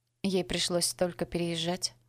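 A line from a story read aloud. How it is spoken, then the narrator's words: Sighing. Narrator (Russian): вздохнула мисс Коннор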